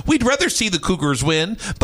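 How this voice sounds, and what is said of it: Brief Minnesota-Wisconsin accent. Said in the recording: “You went a little ooh with the Cougars ... I did a little Wisconsin there ... I did a little Minnesota, a little Wisconsin”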